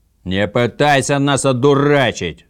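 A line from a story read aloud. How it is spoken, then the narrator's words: Yelling from a ship. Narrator (Russian): заорали с корабля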